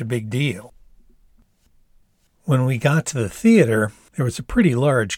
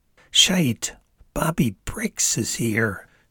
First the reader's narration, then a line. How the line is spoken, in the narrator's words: she said in a low growl, a tone I had not heard her use before